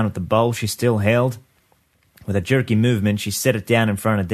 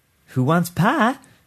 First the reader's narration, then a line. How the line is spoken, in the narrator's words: she asked in a bright, brittle voice